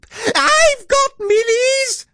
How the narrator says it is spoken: squealed Meerkat

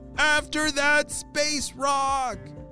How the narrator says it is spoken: yelled Miles

